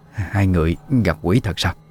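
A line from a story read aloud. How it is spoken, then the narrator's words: Trembling old woman's voice. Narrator (Vietnamese): Giọng bà run run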